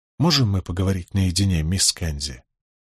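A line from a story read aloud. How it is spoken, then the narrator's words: Quiet. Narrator (Russian): Николас тихонько сказал Беатрис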